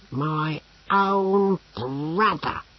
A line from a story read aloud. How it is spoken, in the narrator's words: growled Brocando